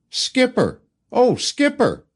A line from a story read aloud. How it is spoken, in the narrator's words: I called out